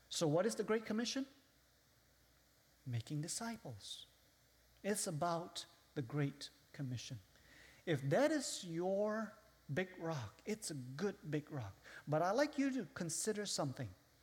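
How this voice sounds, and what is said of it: Slight foreign accent in English. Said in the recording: “I'm cross-cultural ... I didn't grow up in this country ... you can actually hear an accent, a foreign accent in my voice”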